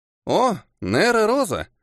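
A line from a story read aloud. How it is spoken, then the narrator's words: Pleasant boyish exclamation. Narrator (Russian): Приятным голосом воскликнул беловолосый мальчик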